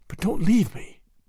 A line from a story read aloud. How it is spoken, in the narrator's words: whispered his wife